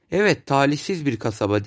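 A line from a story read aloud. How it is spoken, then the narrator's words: Said, then laughed. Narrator (Turkish): dedi ve güldü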